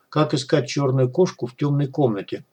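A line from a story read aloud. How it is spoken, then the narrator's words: Muttering. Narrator (Russian): пробормотал он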